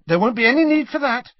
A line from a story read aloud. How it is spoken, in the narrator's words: said Harry hastily